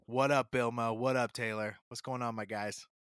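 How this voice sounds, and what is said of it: Imitates another person's voice. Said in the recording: “In my best Danny DeVito voice I can do.”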